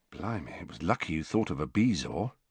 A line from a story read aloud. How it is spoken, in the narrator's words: said George in a low voice